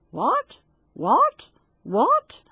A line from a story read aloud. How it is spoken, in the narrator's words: a frog sat down beside it and croaked